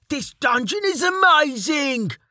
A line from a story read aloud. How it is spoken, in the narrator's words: Delta yelled after his friend